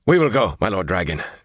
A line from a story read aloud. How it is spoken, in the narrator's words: Mirasen said breathlessly